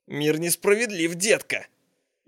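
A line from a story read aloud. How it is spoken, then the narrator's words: Snide hoarse rasp. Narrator (Russian): ехидно прохрипел лежащий внизу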